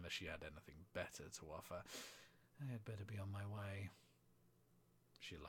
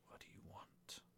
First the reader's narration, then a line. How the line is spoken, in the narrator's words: She laughed